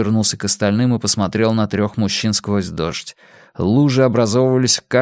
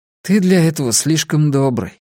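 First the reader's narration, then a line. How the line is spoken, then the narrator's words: Tired. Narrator (Russian): устало сказал Сами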